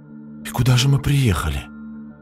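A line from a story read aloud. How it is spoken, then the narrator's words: Girl whispering. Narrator (Russian): почему-то шепотом сказала девушка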